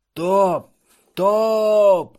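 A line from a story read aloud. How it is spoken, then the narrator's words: Shouting at full voice. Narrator (Russian): крикнул на весь голос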